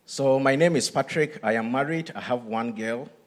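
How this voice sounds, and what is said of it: Speaks with a noticeable foreign accent. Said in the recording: “I have an accent”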